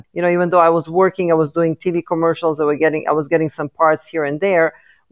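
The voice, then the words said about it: Slight foreign accent. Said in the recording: “I have a little bit of an accent.”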